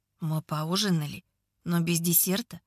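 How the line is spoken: Muttered. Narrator (Russian): бормочет он

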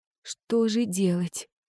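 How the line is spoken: Frightened whisper. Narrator (Russian): прошептала я, покрывшись холодным потом

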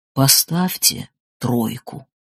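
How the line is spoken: Quiet words. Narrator (Russian): Витька Садиков … тихо говорит

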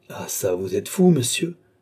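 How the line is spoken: Exclaimed. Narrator (French): s'écria Balsamo

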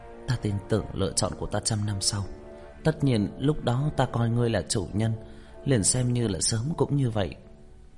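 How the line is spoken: Hesitant sigh. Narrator (Vietnamese): Mỹ Hoa ánh mắt chớp động, tự hồ do dự, cũng thở dài

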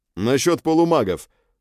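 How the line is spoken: Loud. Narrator (Russian): громко произнес

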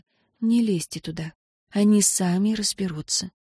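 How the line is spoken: Quiet exhaling voice. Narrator (Russian): Энн выдохнула и негромко сказала

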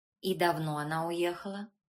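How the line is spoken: Calm businesslike question. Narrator (Russian): спросил граф все тем же спокойным деловым тоном

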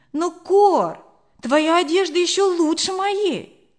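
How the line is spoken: Exclaiming. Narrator (Russian): воскликнула я

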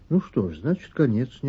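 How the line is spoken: Unexpectedly calm agreement. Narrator (Russian): неожиданно спокойно согласилась

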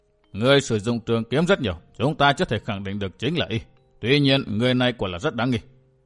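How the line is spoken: Stern old man. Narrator (Vietnamese): Lão nhân áo xám nghiêm nghị

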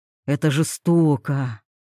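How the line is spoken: Sigh. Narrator (Russian): вздохнув

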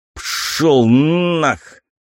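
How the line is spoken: Hiss. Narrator (Russian): прошипел

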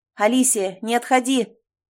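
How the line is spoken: Shouted. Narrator (Russian): Я закричал

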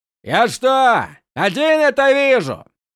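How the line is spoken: Pointedly loud question. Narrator (Russian): Демонстративно громко спросил он у своей свиты

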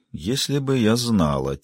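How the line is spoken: Quiet. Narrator (Russian): тихо сказала она

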